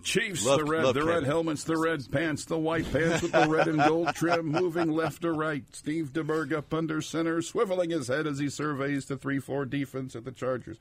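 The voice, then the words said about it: Kevin Harlan play-by-play impression. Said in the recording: “work on a little Kevin Harlan ... impersonation ... it sounds like half Kevin Harlan and half Harry Callis, who used to do the Eagles.”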